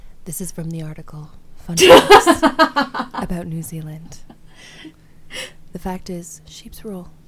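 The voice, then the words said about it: Sultry bedroom voice. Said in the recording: “Bedroom voice. ... A sultry. ... Maybe I'll read this in a sultry voice.”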